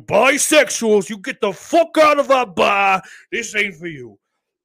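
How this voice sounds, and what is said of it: Put-on street tough accent. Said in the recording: “they had that odd street tough accent”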